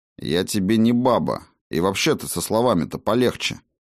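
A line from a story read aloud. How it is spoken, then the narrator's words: Cold. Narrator (Russian): холодно произнес Хаген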